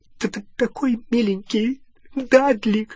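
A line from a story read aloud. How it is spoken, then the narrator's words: Sobbing. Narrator (Russian): всхлипывала она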